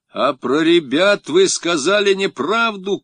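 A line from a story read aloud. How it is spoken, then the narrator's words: Shouted. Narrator (Russian): крикнул я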